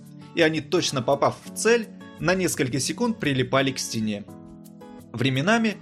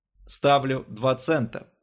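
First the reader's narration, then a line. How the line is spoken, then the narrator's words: Plain. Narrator (Russian): сказал Джо Слеттермилл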